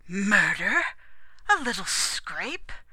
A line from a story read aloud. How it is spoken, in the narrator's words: Lurton gasped